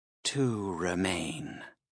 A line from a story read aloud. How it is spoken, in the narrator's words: answered in a whisper that might have given normal people nightmares